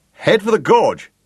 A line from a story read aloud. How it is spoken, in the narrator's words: shouted Gareth